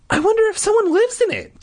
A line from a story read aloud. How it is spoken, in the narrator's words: Terry said excitedly